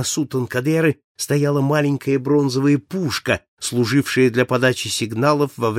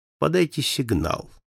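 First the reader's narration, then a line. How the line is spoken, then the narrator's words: Calm. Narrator (Russian): спокойно сказал ему мистер Фогг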